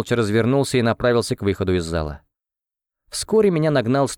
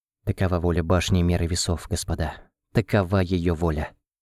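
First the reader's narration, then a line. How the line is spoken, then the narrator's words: Quiet. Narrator (Russian): кто-то из родственников тихо добавил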